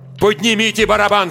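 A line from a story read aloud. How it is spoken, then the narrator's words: Shouted. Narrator (Russian): закричал я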